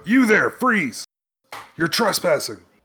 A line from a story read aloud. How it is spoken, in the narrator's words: somebody shout